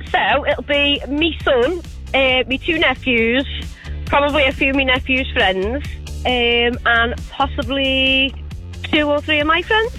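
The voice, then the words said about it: Scouse accent. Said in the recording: “I detect a Scouse accent.”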